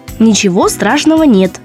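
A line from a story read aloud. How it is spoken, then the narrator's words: Plain. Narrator (Russian): сказала она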